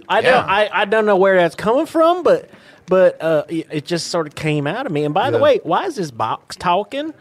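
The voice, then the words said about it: West Virginia accent. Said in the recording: “I like your accent. You from West Virginia?”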